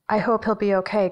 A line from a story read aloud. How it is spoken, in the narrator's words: Gretyl says